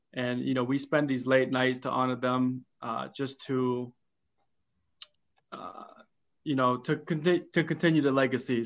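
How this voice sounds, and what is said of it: Emotional, choked-up voice. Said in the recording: “I'm getting a little choked up”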